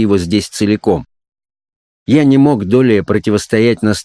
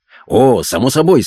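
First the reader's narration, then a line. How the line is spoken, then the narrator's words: Good-natured exclamation. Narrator (Russian): с обычным добродушием воскликнул он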